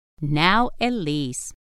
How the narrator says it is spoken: her mother answered

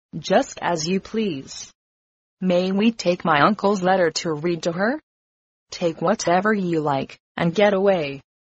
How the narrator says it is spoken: coolly replied

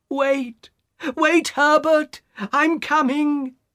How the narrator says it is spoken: she cried

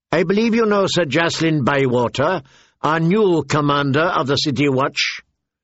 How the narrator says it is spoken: Tyrion called out

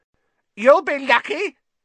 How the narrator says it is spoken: said a cackling voice

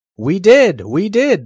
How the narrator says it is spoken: all shouted together

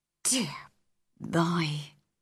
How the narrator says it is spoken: Susan Sowerby whispered

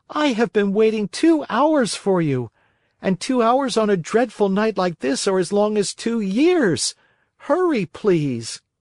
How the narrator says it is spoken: cried Pinocchio from the street

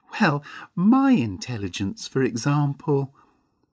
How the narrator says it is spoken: said Mavis with a little laugh

